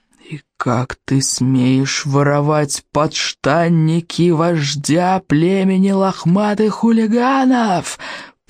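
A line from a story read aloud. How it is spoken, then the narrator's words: Growl. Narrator (Russian): прорычал стоек обширный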